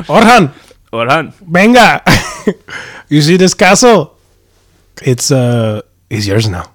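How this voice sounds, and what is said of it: Exaggerated Puerto Rican accent. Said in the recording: “racist Puerto Rican accent”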